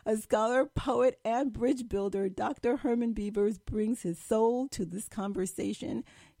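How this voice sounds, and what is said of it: Slightly hoarse, strained voice. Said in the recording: “I'm losing my voice a little bit.”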